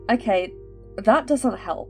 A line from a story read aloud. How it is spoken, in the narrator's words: chuckled, the worry he was feeling